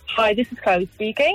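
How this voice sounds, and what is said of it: Formal telephone voice. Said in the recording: “went into like full blown like phone character right there ... official phone voice”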